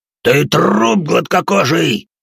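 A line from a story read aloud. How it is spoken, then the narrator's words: Roared, big man. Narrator (Russian): взревел здоровяк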